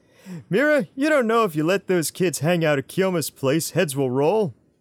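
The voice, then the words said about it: Imitates a character's voice. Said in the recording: “my best Sketch impression”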